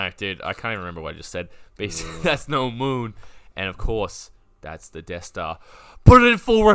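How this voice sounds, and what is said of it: Usual voice. Nothing is said of it.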